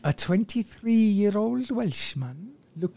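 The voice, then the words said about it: Put-on Welsh accent. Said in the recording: “He's not Welsh. ... Do you choose these stories just so you can do an accent?”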